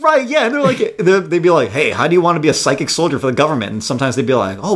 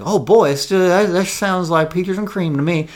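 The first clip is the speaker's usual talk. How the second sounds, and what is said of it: Put-on New England accent. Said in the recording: “that's my New England accent, apparently”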